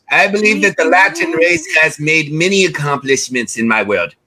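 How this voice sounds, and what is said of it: Odd mixed Mexican-English put-on accent. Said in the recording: “What accent was that? I heard of Mexico and Old English. Are you Spanish? ... Are you English?”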